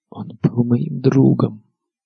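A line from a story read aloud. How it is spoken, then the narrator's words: Quiet secret whisper. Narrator (Russian): шептала Арья в тарелку негромко, так, чтобы ее не услышали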